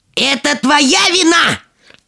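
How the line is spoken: Angry yell. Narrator (Russian): от злости, заорала

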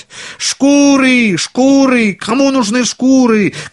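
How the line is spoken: Street vendor shouting. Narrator (Russian): кричал по улицам

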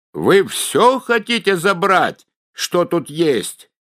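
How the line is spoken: Shouting at full voice. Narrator (Russian): да как закричит оттуда во все горло

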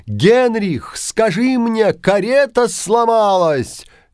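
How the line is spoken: Alarmed prince shouting. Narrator (Russian): Встревоженный принц крикнул

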